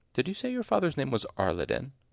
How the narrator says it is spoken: He asked it very calmly, with no hint of regret or apology in his voice

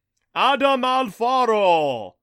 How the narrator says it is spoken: Jakuta boomed in a voice like thunder

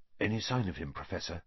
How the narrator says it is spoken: asked Percy in a whisper

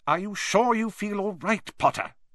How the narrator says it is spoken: said Professor McGonagall sharply

